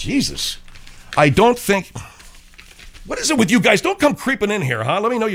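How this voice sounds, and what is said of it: Usual voice. Nothing is said of it.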